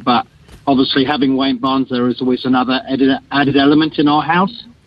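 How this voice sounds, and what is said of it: English accent. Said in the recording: “as you can hear from my voice, I'm English”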